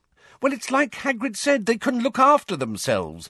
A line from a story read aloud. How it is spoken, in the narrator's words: said Hermione impatiently